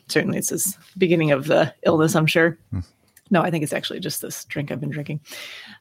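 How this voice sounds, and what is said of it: Scratchy voice. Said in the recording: “my voice is scratchy all of a sudden”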